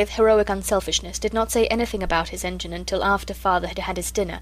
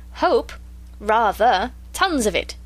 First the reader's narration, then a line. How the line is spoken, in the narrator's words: said Father cheerfully